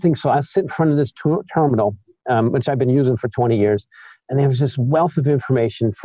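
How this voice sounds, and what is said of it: South Side Chicago accent. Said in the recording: “I have a bit of a South Side accent ... South Side Chicago, that is.”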